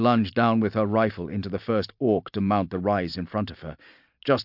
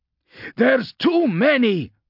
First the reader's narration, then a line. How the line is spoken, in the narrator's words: Vaughn shouted over the thunder of gunfire and alien roars